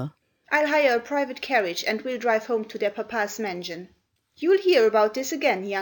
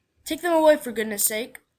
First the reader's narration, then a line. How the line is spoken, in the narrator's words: said crossly